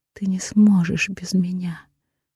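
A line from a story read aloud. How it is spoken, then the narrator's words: Barely audible whisper. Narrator (Russian): шепчу еле слышно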